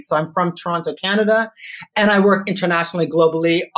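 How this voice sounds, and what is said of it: Canadian accent. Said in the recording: “as you can tell by my accent, I am not a born and bred Aussie ... I heard some of that Canadian”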